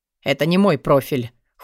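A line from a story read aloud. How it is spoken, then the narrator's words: Cold reply. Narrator (Russian): холодно ответил Алви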